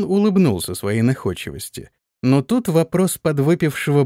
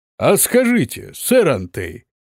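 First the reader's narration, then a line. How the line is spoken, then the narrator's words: Loud question over noise. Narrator (Russian): громко спросил барон, перекрикивая шум в зале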